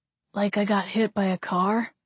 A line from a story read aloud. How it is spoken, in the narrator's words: he muttered